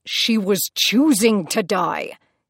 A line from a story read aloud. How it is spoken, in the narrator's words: Hades snarled